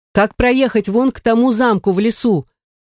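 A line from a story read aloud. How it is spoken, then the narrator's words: Shout. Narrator (Russian): крикнул ему Михаил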